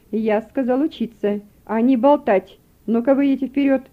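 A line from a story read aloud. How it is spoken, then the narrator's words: Stern command. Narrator (Russian): строго велел он им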